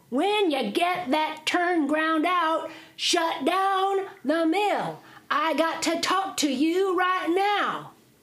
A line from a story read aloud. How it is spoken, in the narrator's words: The man hollered back in Jack's ear, says